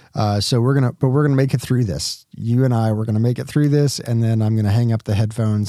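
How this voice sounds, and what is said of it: Strained voice, close to losing it. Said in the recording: “I'm just on the edge of losing my voice as I'm dealing with the cough and the allergies”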